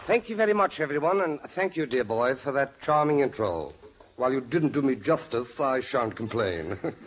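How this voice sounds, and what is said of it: Posh English accent. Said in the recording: “where'd you get that new accent?... a Hollywood Englishman with a red monocle in your eye”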